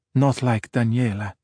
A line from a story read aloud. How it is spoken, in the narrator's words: Ercole said wistfully